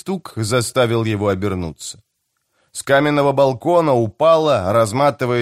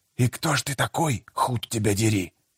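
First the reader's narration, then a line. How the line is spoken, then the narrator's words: Hiss. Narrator (Russian): Прошипел он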